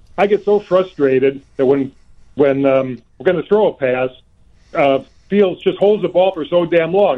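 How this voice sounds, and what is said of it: Worn, off-sounding voice. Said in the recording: “I'm a little tired from screaming at the television, so my voice is off.”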